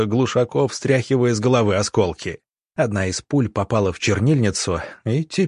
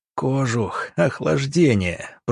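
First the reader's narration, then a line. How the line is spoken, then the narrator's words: Recalling whisper. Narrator (Russian): прошептал доктор, вспоминая слова самого Сидоренко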